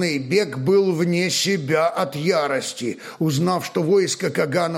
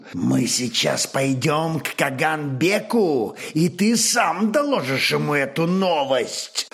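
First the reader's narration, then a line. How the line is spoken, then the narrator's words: Furious hiss in face. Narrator (Russian): пылающие злобой очи, прошипел в самый лик главному изведывателю Тархан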